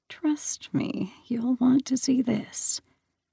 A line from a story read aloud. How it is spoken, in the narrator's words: Hermes pressed his lips close to her ear and murmured